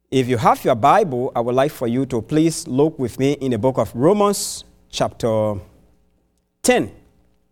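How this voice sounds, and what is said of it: Non-native English accent. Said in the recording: “my English, the accent is not too like yours”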